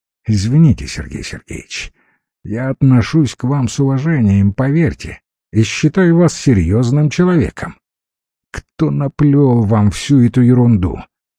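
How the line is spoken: Calm. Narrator (Russian): произнес уже спокойно

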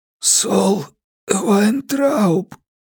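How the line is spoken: Hoarse rasp. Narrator (Russian): прохрипел я

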